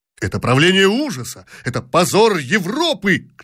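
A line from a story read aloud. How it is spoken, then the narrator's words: Shouting. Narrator (Russian): кричал другой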